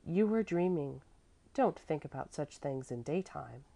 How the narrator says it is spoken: the mother said kindly

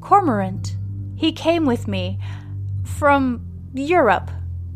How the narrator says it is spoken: stammers Lucas

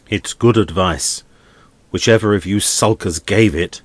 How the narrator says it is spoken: he went on angrily

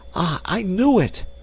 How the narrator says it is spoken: she exclaimed

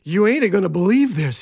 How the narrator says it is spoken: panted

